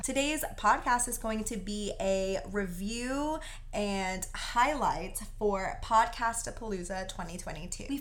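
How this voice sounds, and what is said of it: Hoarse voice cutting in and out. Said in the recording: “I lost my voice... I just talk so much and scream so much that I end up losing my voice... my voice does sound a little roller coastery like that. So it goes in and out a little bit.”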